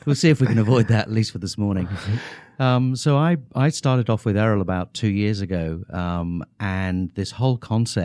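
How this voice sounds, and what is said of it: English accent. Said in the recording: “I apologize for the English accent”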